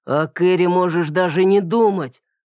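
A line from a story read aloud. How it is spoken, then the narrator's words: Father growling. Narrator (Russian): прорычал отец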